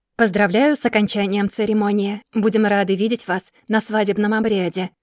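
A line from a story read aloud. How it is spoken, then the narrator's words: Plain, priestess. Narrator (Russian): говорит жрица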